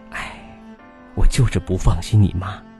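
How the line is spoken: Sighing. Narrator (Chinese): 外婆就叹气

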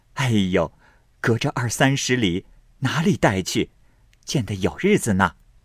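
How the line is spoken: Laughing. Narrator (Chinese): 众人笑道

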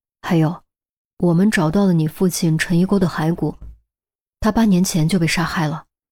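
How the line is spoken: Pause, hushed voice. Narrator (Chinese): 顿了顿，陈红压低声音补充道

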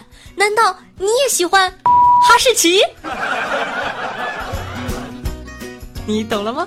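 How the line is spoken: Happy shout. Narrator (Chinese): 他高兴的大喊

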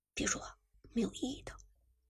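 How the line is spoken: Low voice. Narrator (Chinese): 苏哲低声道

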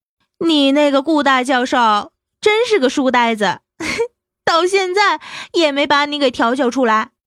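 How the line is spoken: Giggling, teasing. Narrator (Chinese): 嘻嘻笑道

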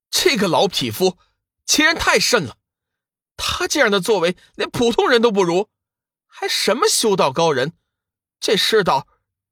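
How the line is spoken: Angry. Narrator (Chinese): 龙宇怒道

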